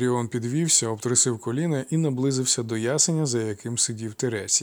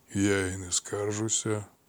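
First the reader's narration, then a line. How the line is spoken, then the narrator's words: Calm, old man. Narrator (Ukrainian): спокійно сказав старий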